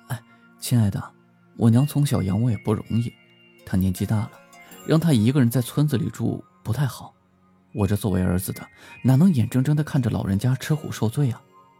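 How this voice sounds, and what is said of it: Soft, quiet pleading voice. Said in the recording (Chinese): “小声地说”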